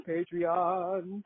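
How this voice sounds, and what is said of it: Imitates another person's voice. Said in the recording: “That's my Oprah impression. ... It's good. I feel like I'm talking to Oprah right now.”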